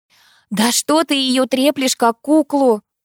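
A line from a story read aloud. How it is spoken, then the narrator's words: Pleading. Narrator (Russian): взмолилась Алиса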